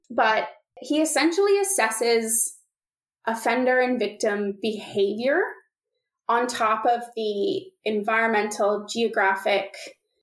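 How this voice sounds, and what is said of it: Canadian English accent. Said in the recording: “He's from Canada, which is where I'm from, if you couldn't tell by the accent.”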